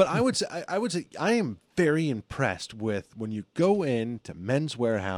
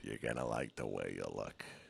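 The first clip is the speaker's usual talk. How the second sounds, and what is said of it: Gravelly imitated pitchman voice. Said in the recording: “a voice on that guy ... That's a gravel.”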